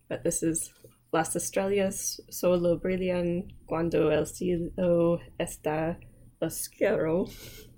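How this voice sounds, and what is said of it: Spanish with strong American accent. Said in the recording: “my accent is not good, not to mention it's very American”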